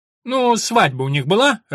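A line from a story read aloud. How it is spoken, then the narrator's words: Irritated monk asking. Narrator (Russian): раздраженно спросил монах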